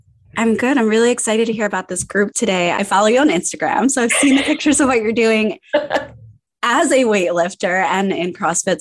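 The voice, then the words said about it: Hoarse, fading voice. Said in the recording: “losing my voice. So I think I'm like the first person to have a podcast to be podcasting while losing my voice”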